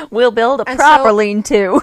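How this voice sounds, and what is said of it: Put-on Missouri accent. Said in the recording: “That's my Missouri accent.”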